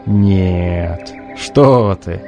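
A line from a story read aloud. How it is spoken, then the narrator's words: Old man laughing. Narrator (Russian): засмеялся старец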